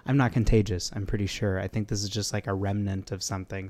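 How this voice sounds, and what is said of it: Sick, cough-affected voice. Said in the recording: “my voice isn't usually so... But I have been battling this crazy cough”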